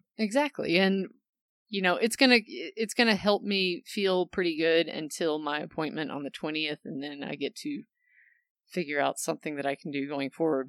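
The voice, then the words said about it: Voice sounds kind of weird. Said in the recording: “if you notice that my voice sounds kind of weird, it's because I've had stomach acid in my throat for the past, pretty bad for about the past 5 days”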